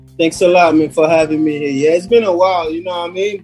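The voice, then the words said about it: Haitian-tinged Brooklyn accent. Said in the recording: “my background is Haitian... you're going to hear my accent come here and there”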